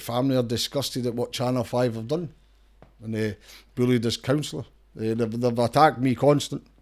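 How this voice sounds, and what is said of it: Strong Scottish accent. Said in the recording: “I'm surprised you never get subtitled... They want to put subtitles on... my accent's no changing... You're Scottish”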